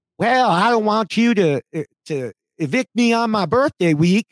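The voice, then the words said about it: Imitates another person's voice, poor accent. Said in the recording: “I realize that's a horrible accent”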